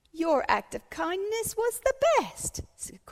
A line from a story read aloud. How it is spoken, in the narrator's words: cried Mrs